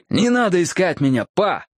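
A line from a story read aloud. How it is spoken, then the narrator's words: Shouted. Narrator (Russian): закричал я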